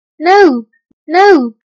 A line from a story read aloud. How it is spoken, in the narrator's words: the children cried